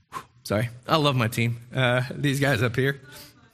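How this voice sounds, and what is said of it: Emotional, choked-up voice. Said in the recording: “I get emotional, sorry”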